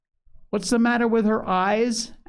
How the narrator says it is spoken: asked Grandma, sharply

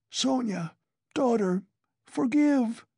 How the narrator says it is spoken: he cried

